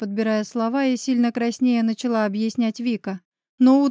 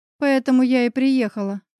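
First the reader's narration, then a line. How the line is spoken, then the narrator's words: Sighed. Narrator (Russian): вздохнула Вика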